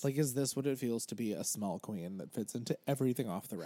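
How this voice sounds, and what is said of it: Dry, strained voice. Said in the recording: “Are you okay? You don't have the Rona, do you?... I'm just very dry... Dehydrated and my voice is kind of like, help.”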